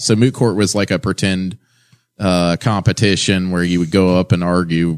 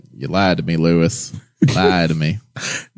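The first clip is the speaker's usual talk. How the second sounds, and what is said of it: Imitates another person's accent. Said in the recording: “McConaughey's accent.”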